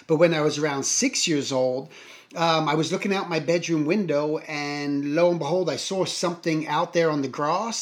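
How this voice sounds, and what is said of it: English accent. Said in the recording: “if you hear me with a funny accent, it is a funny accent because I'm originally from England”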